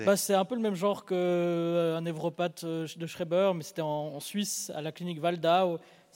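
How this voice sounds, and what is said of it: Swiss French accent. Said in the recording (French): “tu as un accent suisse d'ailleurs”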